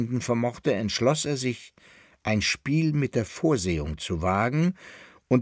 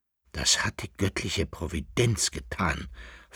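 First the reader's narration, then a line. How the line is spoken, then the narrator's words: Whisper. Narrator (German): flüsterte der Sohn des Kaisers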